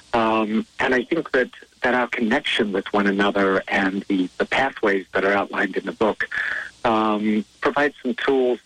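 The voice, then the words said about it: South African accent. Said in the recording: “yes, you are hearing an accent. He was born and raised in South Africa.”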